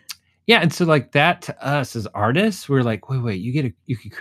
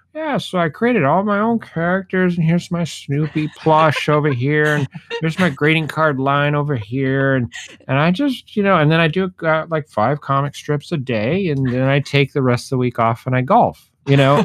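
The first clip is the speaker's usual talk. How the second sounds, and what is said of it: Older man voice. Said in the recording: “It's my old man voice, but my older man voice.”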